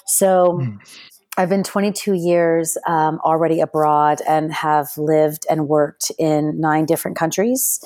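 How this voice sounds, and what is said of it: American accent. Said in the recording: “I speak with an American accent”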